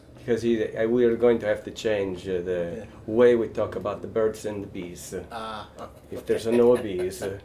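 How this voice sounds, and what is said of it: Put-on Italian accent, slightly German. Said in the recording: “That's my, like, Italian accent. ... That was great. At first I'm like, that sounds like Pope Benedict. That sounded a little German.”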